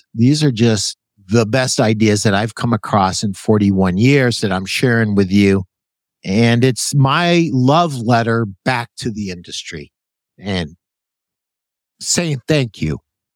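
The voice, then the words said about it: Choked-up, emotional voice. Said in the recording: “sorry to get choked up. I do that on occasion.”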